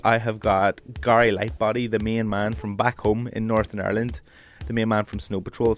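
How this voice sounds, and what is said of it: Congested voice from a cold. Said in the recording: “I can barely even do my own accent at the minute. I'm dosed with a cold, and it's only going to get worse.”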